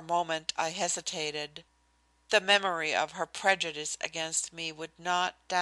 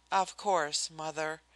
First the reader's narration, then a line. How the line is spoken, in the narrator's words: I said quietly